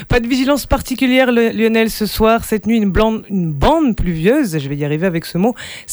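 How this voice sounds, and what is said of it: American accent speaking French. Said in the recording (French): “toujours cet accent américain”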